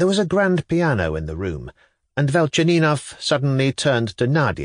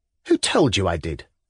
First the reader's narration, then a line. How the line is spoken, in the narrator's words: said Nadia curtly